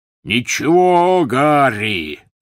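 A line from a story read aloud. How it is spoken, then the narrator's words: Roar. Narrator (Russian): взревел Хагрид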